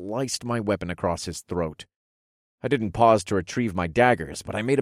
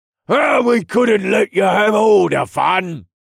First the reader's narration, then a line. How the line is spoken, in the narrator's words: Jax shouted above the din of his metal hammer smashing into another helmet